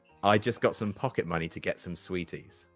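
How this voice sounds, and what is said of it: Quiet radio-presenter voice. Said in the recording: “say in your presenting voice ... do your presenting voice but quieter”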